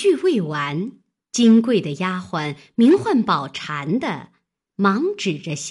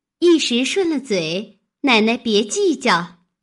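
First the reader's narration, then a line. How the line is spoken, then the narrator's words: Embarrassed apologetic smile. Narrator (Chinese): 香菱猛醒了，反不好意思，忙陪笑道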